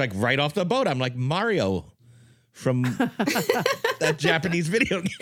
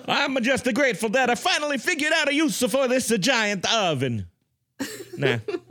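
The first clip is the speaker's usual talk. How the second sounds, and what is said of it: Put-on Italian accent. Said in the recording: “Italian accent ... My Italian accent's too good ... It's a great accent ... Al dente Italian accent”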